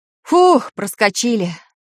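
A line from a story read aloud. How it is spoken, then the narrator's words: Relieved exhale. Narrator (Russian): выдохнул Баб-Ягун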